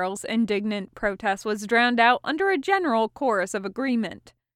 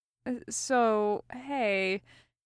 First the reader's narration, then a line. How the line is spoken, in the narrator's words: said quietly